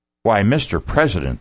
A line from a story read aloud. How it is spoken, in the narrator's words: the waitress exclaimed